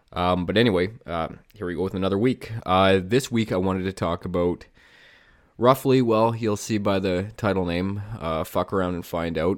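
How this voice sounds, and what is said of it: Slightly nasal, congested voice. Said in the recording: “my voice is a little bit off or I sound a little bit nasally. I'm a little bit under the weather here.”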